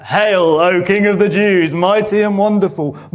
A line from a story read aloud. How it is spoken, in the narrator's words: mocking him